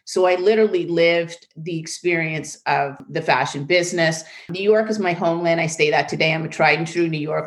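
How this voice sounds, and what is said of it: Slight New York accent. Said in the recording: “I have a little bit of a New York accent that never goes away.”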